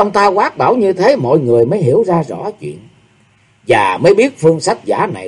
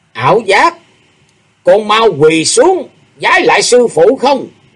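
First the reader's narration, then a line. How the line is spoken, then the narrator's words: Loud commanding shout. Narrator (Vietnamese): ông ta lớn tiếng quát bảo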